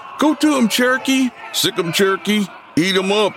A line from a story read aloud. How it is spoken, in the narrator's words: cries from the crowd